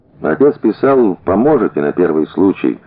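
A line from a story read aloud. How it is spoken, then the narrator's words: Plain. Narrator (Russian): сказал Генка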